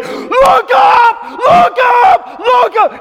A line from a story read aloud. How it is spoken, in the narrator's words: he's yelling